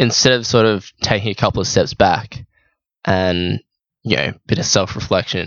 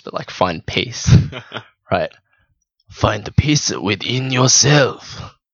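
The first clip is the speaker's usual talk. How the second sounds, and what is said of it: Put-on wise sage accent. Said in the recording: “I don't sound like Confucius ... you do that accent so well”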